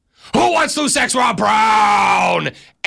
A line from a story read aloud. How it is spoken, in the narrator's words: I am going to yell